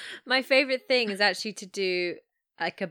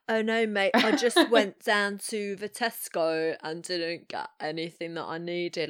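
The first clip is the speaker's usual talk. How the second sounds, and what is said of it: Exaggerated bad English rock-star accent. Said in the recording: “a bad English accent ... a bit like, I think it's Del Preston from Wayne's World ... kind of like rock star ... the Spinal Tap voice”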